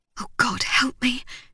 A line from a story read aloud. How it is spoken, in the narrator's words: she whispered